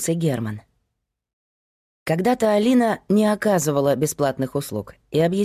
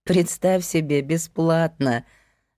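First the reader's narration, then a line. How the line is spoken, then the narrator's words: Laughing. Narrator (Russian): засмеялась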